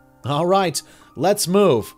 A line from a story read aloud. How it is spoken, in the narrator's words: Three called, doing his best to shout in a full-face respirator